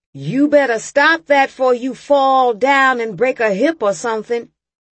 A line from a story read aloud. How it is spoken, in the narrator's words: Raymond yelled